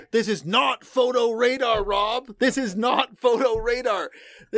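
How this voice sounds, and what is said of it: Imitates another person's voice. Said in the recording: “my best Mike Farnworth impression”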